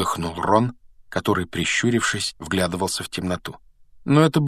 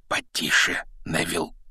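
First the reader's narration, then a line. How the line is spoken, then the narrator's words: Whispering. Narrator (Russian): шепнул Рон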